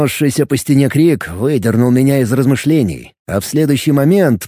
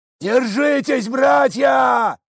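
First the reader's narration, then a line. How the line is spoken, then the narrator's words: Someone yelling. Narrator (Russian): заорал кто-то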